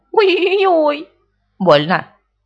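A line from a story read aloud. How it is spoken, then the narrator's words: Crying out in pain. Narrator (Russian): Винни закричал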